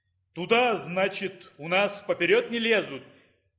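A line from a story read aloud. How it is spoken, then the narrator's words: Pleasant light bass. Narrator (Russian): Не густым, приятным баском сказал Конопатый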